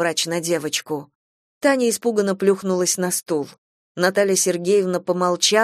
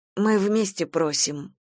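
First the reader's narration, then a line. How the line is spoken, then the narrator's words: Muttered. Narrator (Russian): пробормотала Зоя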